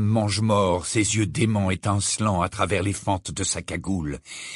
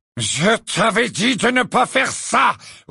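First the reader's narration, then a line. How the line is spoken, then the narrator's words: Roared. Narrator (French): rugit Lucius Malfoy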